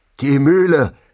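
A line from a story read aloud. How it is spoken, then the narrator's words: Called through cupped hands. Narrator (German): rief, die Hände zum Trichter geformt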